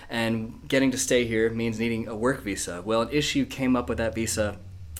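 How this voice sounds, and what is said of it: American accent. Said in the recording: “my accent's not quite northern. I'm not from here. I was born in America.”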